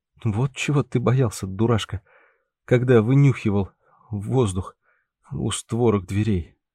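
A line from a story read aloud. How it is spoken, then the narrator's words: Coughing, trembling voice. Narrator (Russian): закашлявшись, дрожащим голосом произнес Андрей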